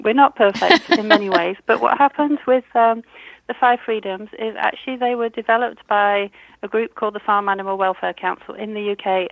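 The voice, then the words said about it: British accent. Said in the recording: “You can tell I'm British from my accent.”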